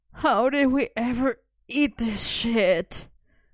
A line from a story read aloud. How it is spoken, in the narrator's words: Merlin groaned, clutching his belly